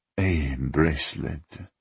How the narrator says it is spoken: he muttered

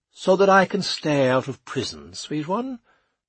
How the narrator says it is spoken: replied Charles cheerfully

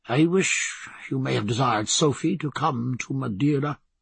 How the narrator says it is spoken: muttered Stephen

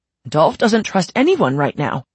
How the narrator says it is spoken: he gasped

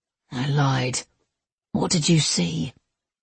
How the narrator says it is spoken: He spoke so quietly that Levi barely heard him

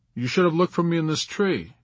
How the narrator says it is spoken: Yossarian answered

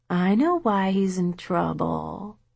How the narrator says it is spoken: Michelle said in her most wheedling voice

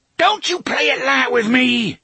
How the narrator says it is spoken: he shrieked

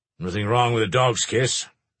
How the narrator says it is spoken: said Archie gruffly

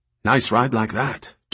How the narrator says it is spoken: Doyle said

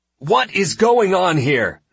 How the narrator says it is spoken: I shouted

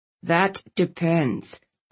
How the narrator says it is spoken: Landon answered evenly

